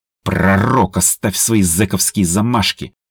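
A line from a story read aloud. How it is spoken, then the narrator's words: Growl. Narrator (Russian): зарычала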